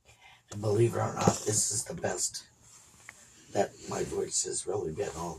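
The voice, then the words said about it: Groggy, congested voice with a frog. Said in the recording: “You're funny when you talk ... I don't have my bottom teeth in, and my voice is really groggy because of my mucus levels from allergies ... I talk better when I have my bottom teeth in, but I still have the frog”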